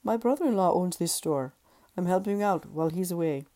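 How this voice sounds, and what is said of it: Gracious Indian accent. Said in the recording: “His Indian accent was inherently gracious.”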